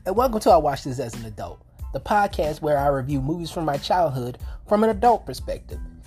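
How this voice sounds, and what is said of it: Raspy, hoarse voice. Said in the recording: “Forgive my voice, it's a little shredded ... I woke up with kind of like a sore throat ... my voice sounds a little raspy ... I might have to clear my throat a couple of times”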